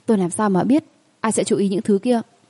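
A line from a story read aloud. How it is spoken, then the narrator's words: Interrupting, raised voice. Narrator (Vietnamese): Ngắt lời cô, cao giọng giải thích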